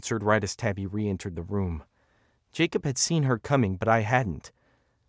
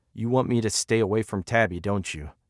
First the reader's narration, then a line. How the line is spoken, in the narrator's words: he asked